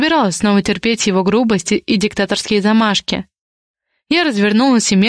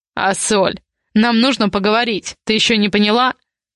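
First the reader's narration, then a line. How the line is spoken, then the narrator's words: Growled. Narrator (Russian): рыкнул Ивар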